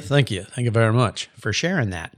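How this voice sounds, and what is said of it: Elvis Presley impression voice. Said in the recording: “as Elvis would say ... my best Elvis impression”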